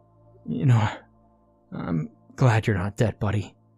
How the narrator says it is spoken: I said to him in a shaky voice

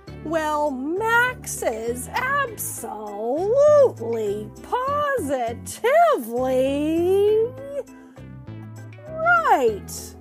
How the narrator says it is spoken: The Grinch shouted

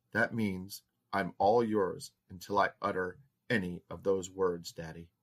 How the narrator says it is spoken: added quietly

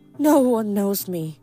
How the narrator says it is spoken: she sighed

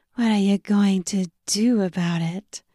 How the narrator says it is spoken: She breathed

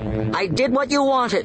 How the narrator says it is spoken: Kendra shouted at them

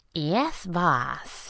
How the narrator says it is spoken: had purred

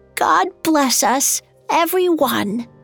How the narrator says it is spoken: exclaimed in a frail voice

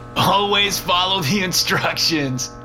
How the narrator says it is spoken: laughed the one with the shovel

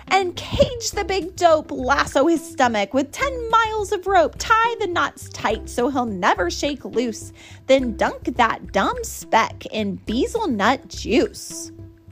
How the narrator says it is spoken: shouted

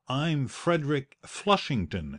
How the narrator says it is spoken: he stammered

